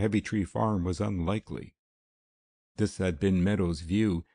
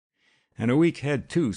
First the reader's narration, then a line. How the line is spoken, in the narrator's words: snapped Alma